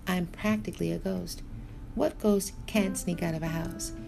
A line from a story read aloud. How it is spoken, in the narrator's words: Anatov laughed